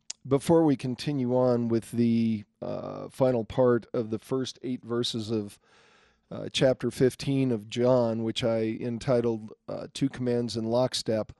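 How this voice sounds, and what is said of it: Congested, sick-sounding voice. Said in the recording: “I'm still struggling with that same cold I had last week ... cough up some fur balls”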